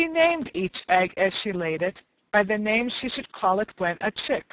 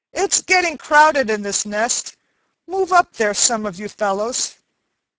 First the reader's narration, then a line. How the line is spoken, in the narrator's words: Cluckety Cluck, who was in the middle of the nest and the oldest egg of all, called out angrily